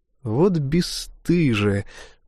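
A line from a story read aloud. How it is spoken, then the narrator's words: Sighing. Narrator (Russian): вздохнул Марк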